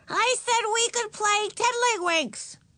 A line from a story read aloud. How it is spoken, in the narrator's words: yelled Ramona